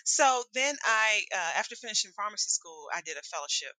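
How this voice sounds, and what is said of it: Southern US accent. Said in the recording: “always a Southern girl, you know, say y'all all the time ... I can hear your accent”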